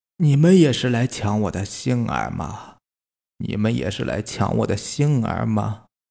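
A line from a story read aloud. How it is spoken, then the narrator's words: Monster murmuring to itself. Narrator (Chinese): 怪物口中喃喃自语的说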